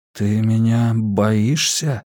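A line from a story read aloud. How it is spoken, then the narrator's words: Trembling voice question. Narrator (Russian): дрогнувшим голосом спросил он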